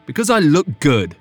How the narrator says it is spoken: Griffin snapped

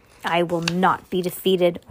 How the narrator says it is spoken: Orson Erie roared

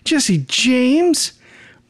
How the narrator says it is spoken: Peter completely freaks, exclaiming

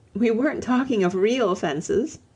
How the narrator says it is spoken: said Lucy, laughing

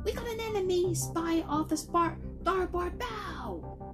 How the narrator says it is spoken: Isaac yelled, captivated by fantasy and imagination

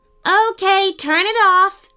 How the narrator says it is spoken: shouted Sean

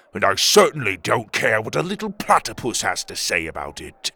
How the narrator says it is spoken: Tuga growled

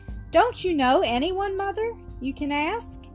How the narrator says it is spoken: asked Toni anxiously

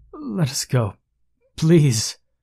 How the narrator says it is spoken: I stuttered

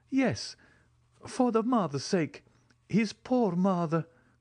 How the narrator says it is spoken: cried the major

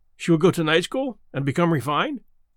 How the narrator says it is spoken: I ventured anxiously

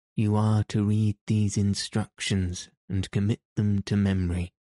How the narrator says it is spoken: said Sir Andrew

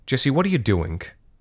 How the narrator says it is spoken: said Larissa

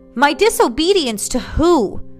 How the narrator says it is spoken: Samael shouted

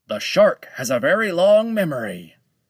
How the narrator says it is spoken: Oldman shouted at Lone Shark

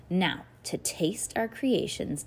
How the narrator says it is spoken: Dad said

